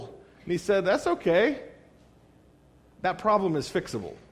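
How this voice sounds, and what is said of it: Usual voice. Nothing is said of it.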